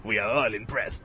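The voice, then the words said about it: Generic foreign accent. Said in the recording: “That's generic foreign accent”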